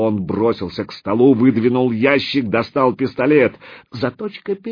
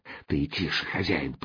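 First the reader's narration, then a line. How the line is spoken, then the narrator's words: Whisper. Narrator (Russian): прошептал помощник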